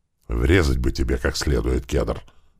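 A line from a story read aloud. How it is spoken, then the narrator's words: Menacing hiss. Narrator (Russian): зашипел на него туман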